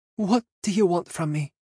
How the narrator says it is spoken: Kitty tilted her head forward in resignation, her voice breaking with emotion, and she said

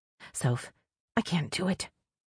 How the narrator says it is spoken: she whispers harshly into my ear

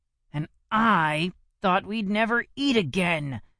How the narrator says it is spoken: growled Cecil

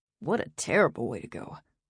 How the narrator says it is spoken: Jack muttered to himself

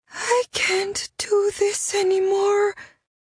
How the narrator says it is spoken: the young woman said, her voice a hoarse whisper

